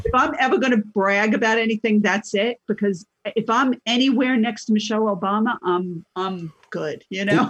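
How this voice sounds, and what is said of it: New York accent. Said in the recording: “I'm hearing a New Jersey, New York accent. ... that's not a Boston accent.”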